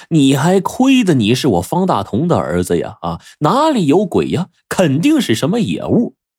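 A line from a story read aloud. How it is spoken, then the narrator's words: Chuckling old man. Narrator (Chinese): 这老猎人呢不禁就呵呵的笑了起来，说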